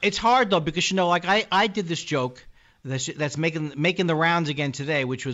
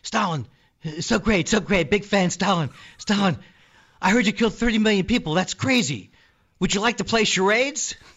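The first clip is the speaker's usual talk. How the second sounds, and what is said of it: Imitates another person's voice. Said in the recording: “my impression of Jimmy Fallon interviewing Stalin”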